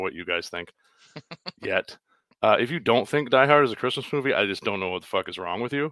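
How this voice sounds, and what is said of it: Usual voice. Nothing is said of it.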